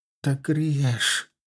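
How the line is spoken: Whisper. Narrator (Russian): прошептал офицер

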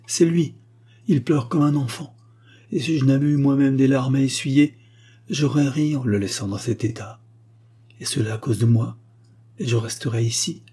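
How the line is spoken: Marquise exclaiming. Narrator (French): s'écria la marquise

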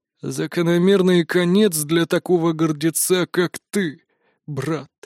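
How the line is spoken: Hoarse, unaccustomed voice. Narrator (Russian): прозвучал хриплый голос утренней звезды, будто для него речь была чем-то чуждым и далеким

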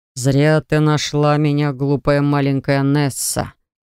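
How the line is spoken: Dragon's growl. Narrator (Russian): прорычал дракон

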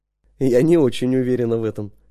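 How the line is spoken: Plain. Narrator (Russian): сказала она

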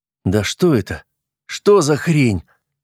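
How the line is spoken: Silent inner exclamation. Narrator (Russian): мысленно воскликнул десятник

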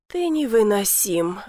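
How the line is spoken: Sighing. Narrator (Russian): вздохнула

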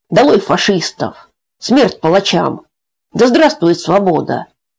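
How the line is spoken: Prisoners shouting too loudly. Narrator (Russian): Некоторые узники, самые горячие, кричали слишком громко

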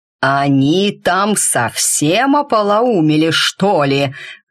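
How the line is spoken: Growling. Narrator (Russian): рыкнул он

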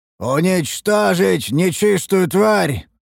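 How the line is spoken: Commander roaring. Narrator (Russian): проревел один из командиров обороны

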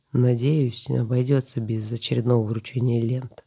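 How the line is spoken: Gruff mutter. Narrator (Russian): буркнул собеседник

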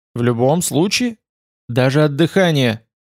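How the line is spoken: Firm, curt. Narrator (Russian): отрезала она твердым голосом

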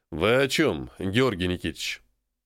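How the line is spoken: Cold question. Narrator (Russian): Холодно спросил Андрей

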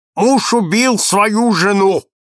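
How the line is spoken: Loud parrot squawk. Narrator (Russian): гаркнул мой попугай

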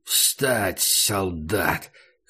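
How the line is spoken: Hoarse command. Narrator (Russian): хрипло приказал он себе

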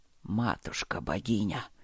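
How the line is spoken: Heavy exhale. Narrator (Russian): тяжело выдохнул Нори

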